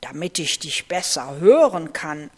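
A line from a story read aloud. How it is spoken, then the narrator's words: Plain. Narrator (German): antwortete der Wolf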